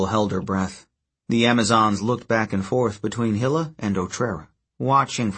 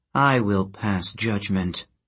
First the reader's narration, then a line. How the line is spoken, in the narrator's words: Hilla said in an icy tone